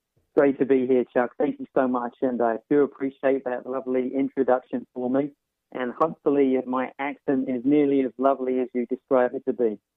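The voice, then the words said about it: British accent. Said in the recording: “with a magnificent UK accent”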